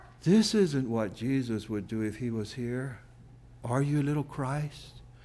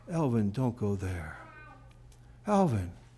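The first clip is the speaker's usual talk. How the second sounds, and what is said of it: Quiet, small, soft voice. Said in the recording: “in that still small voice”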